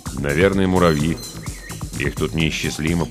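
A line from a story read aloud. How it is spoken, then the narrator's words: Muttering. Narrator (Russian): пробормотал Холройд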